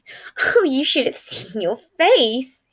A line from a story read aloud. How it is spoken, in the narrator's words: giggled